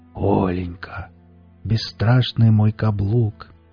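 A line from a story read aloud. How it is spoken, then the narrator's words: Tender whisper. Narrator (Russian): шептал он нежно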